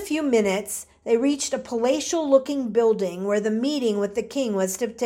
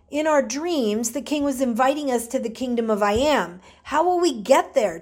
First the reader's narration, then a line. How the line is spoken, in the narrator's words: Thomas asked